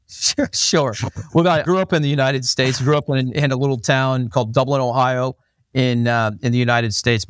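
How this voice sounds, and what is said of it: American accent, slight Australian twang. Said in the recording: “predominantly what sounds like an American accent ... with the slightest amount of Australian twang”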